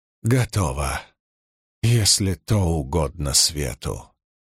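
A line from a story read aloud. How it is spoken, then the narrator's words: Weary. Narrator (Russian): устало вымолвила Кайра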